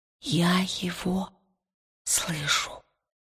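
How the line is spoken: Whisper. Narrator (Russian): прошептала она

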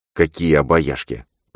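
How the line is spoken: Mumbling. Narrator (Russian): пробормотал он

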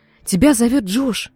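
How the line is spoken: Frightened voice. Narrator (Russian): сказала она сестре испуганным голосом

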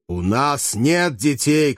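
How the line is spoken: Shout. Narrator (Russian): крикнул один из гладиаторов

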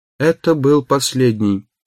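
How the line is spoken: Flat colorless voice. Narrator (Russian): сказал Сэм серым бесцветным голосом

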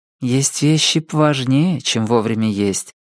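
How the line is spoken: Soft objection. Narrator (Russian): мягко возразила Джесси

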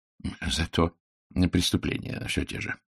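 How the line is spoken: Gentle retort. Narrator (Russian): мягко парировал Пуаро

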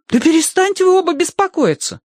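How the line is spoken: Exclaiming. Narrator (Russian): воскликнула Киврин

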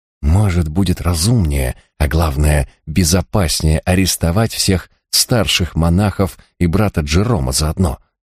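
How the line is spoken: Whisper. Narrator (Russian): шепотом предложил он

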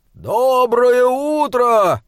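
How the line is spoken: Joyful shout. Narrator (Russian): он радостно прокричал

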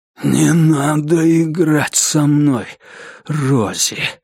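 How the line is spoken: Breathed out. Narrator (Russian): выдохнул он

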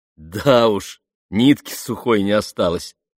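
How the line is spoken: Laughing reply. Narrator (Russian): рассмеялся он в ответ

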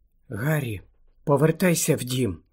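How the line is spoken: Whispered. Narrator (Ukrainian): прошепотіла Герміона

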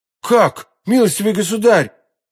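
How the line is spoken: Exclaiming. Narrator (Russian): воскликнул Д'Артаньян

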